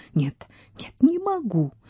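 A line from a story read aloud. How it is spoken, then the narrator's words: Whisper. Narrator (Russian): шепнула она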